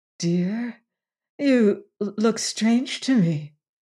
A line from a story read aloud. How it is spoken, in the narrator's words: faltered Bess